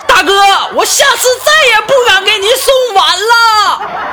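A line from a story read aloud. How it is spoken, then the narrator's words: Shouting while running away. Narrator (Chinese): 这个送快递这小哥 边跑还边喊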